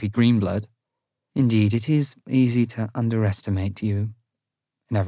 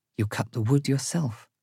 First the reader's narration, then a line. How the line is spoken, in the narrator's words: she whispers